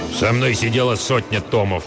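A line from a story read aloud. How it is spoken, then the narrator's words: Old man growling. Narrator (Russian): прорычал старый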